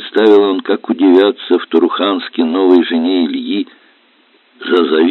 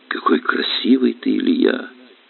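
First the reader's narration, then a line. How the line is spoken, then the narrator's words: Quiet. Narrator (Russian): тихо говорит Лида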